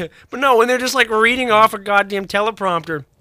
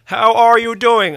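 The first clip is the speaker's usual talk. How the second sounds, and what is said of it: Robotic put-on Indian accent. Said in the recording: “that was like my standard customer service voice. ... Robot service voice. ... That was like a robot Indian voice.”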